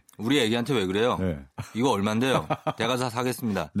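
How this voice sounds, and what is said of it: Imitates another person's voice. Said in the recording (Korean): “어, 진짜 비슷하네 ... 성대모사를 해요”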